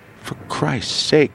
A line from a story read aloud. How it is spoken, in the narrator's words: moaned the boy